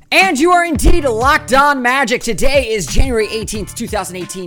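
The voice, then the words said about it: Radio announcer voice. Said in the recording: “I'm using a radio voice for some reason. I apologize for that. I like to use my radio voice on the intro”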